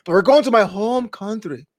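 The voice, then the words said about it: Put-on Scottish accent. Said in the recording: “That's my best Scottish accent.”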